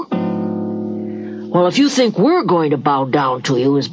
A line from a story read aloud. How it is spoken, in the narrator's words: his brother scoffed